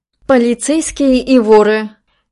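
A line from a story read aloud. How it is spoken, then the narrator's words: Throaty laugh. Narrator (Russian): Рэйчел гортанно хохотнула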